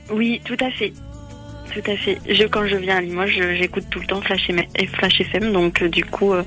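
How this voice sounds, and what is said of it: Southwestern French accent. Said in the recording (French): “t'as bien pris l'accent basque ... L'accent, du sud-ouest”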